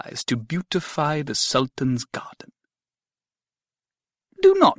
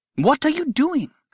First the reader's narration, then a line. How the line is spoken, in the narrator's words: I cried